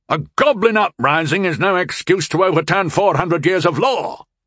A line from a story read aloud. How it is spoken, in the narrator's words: bellowed the largest of them, the brute